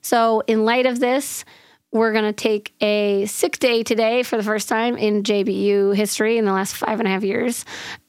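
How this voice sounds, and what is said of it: Hoarse, nearly lost voice. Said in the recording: “you can probably tell that I have lost my voice ... day 4 of my voice being MIA ... This is the best I've sounded”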